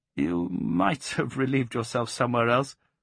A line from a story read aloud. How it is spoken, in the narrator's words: With a rather nervous laugh, Geoffrey said